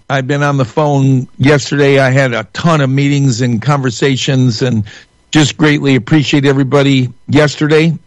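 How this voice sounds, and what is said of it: Strained, failing voice. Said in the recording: “I apologize, my voice is going.”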